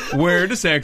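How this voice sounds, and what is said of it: Exaggerated bad Swedish accent. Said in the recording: “Where's my Swedish accent? ... The worst Swedish accent ever.”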